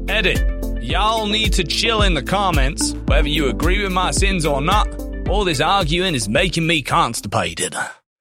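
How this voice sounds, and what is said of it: Put-on accent, poorly done. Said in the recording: “I apologize for the bad accent,”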